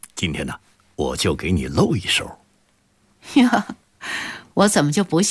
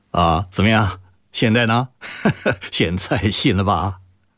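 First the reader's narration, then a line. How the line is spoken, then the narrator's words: Laughing. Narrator (Chinese): 周宁海笑着说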